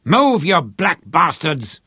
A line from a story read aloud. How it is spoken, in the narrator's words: Lothar bellowed at them